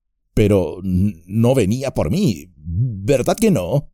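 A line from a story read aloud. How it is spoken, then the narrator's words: Trembling voice. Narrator (Spanish): dijo Pippin con voz trémula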